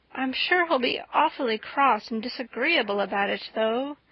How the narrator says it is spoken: moaned Anne

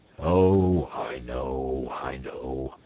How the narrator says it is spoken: said the badger gloomily

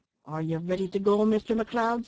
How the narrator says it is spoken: said impatiently

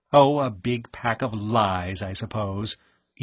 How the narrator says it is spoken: Edith Shaw said scornfully

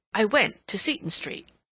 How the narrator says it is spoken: Aunt Cecilia continued firmly

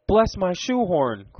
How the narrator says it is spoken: cried Mr

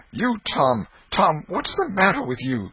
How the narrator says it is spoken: she gasped out

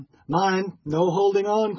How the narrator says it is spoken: cried another

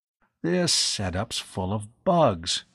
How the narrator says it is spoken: he muttered

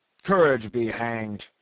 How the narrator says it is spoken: growled Brierly

